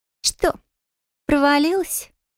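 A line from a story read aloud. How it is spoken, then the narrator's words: Nearby mocking snort. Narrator (Russian): хмыкнула где-то невдалеке Рила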